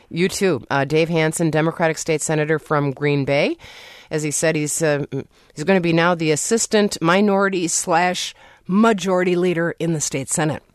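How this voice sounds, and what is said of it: Hoarse, fading voice. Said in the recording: “I'm losing my voice for some reason, but that's a little bit of a cold.”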